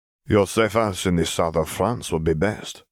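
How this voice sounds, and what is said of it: Soothing French accent. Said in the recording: “He spoke in a soothing French accent”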